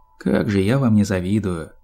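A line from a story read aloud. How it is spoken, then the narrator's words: Sigh. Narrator (Russian): вздохнула Рэнбоу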